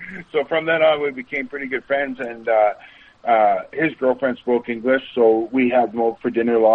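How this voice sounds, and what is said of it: Usual voice. Nothing is said of it.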